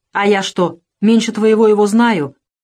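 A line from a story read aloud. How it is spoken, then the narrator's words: Interrupting. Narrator (Russian): перебил Еремей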